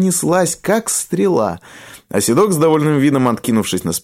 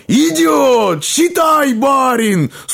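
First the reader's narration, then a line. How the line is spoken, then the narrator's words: Wild laughing shout. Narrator (Russian): дико захохотал, закричал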